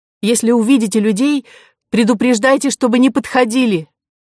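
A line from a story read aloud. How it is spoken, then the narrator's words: Strained with pain. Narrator (Russian): Кора чуть не закричала, так онемела нога, и сказала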